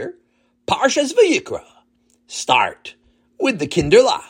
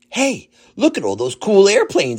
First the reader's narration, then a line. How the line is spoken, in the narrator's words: exclaimed David